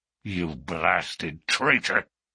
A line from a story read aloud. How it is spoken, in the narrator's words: hissed McGinty through his closed teeth